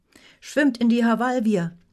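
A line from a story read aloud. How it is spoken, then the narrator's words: Call. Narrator (German): rief Bektora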